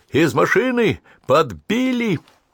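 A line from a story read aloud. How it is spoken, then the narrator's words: Shouting. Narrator (Russian): закричал водитель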